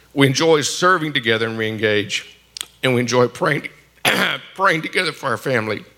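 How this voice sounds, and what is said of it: Hoarse, failing voice. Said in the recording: “I've lost my voice.”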